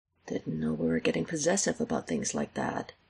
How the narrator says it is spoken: he mutters

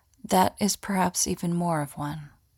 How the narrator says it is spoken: Samat pauses for a brief moment, then says softly

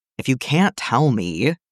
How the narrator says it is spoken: he groaned

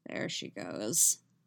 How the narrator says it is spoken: he mutters

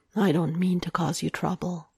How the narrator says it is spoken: he murmurs, and he sounds so incredibly guilty

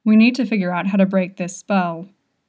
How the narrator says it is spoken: Boya grumbles

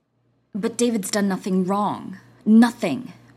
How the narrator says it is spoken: Jack growled

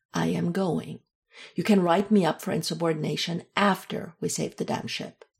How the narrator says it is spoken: finished, firmly

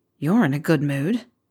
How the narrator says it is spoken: Harry grumbled

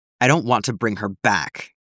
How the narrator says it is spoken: Castle snarled

